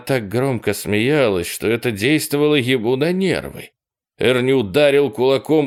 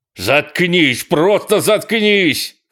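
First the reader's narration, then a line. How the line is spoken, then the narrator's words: Shouting. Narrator (Russian): кричал он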